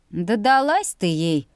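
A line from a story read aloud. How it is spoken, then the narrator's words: Short laugh. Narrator (Russian): хохотнул Виям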